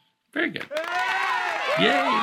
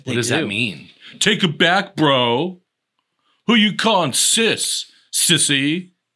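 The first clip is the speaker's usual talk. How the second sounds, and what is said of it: Imitates a straight guy's voice. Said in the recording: “that was a pretty good straight straight impression.”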